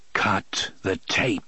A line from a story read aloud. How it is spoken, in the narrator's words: said grimly